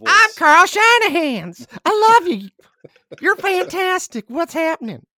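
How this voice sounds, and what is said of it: Gnome character voice, Carl. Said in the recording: “you should do the voice. You gotta do Carl's voice.”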